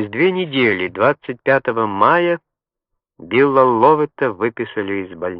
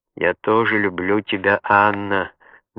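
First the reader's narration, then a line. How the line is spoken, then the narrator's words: Soft. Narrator (Russian): мягко сказал он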